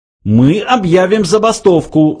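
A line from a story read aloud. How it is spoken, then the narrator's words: Yelling. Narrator (Russian): завопил Врумфондель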